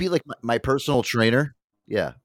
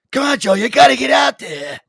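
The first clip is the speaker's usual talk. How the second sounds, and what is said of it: Yelling impression of Rocky's old trainer. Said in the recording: “Remember how Rocky had the old guy that used to like yell at him all the time? ... just yell at me in that stupid voice.”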